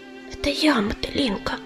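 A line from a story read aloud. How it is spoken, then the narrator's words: Whisper. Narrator (Russian): прошептала она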